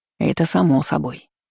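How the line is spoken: Soft interruption. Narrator (Russian): мягко перебил меня Лис

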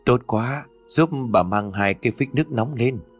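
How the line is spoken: Trembling old woman. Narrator (Vietnamese): Bà lão run rẩy đáp

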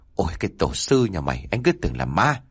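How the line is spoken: Startled, stammering. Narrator (Vietnamese): Tuấn hốt hoảng giật mình lắp bắp nói

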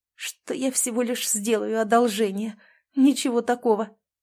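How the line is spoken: Barely audible, hopeless. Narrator (Russian): выдавила еле слышным голосом

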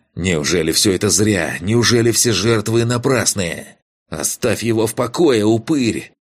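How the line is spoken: Shout from around corner. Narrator (Russian): крикнула появившаяся из-за угла святилища Аленка

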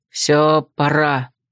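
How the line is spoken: Grumbling. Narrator (Russian): буркнул Глун

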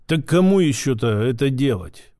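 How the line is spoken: Big fellow grumbling. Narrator (Russian): буркнул детина

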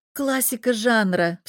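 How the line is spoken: Teasing. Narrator (Russian): поддеваю я

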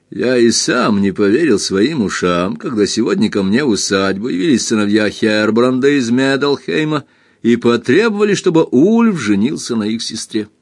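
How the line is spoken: Laughing. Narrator (Russian): смеясь, продолжал

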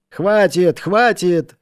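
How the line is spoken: Impatient group shouting. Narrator (Russian): в нетерпении закричали матросы

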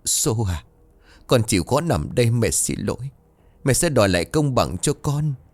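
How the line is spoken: Choked with grief. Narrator (Vietnamese): bà Bảy run rẩy, nói nghẹn ngào

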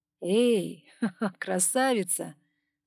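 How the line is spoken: Laughing. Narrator (Russian): Засмеялся Пол

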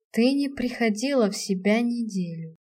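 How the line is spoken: Cold, hollow, detached voice. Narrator (Russian): произнес он холодно, пустым чужим голосом

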